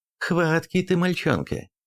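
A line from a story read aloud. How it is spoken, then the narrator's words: Laughing mother. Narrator (Russian): рассмеялась мать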